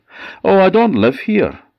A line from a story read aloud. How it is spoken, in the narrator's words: he said